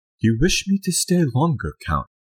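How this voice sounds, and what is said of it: Imitates another person's British accent. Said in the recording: “That was Keanu Reeves' British accent.”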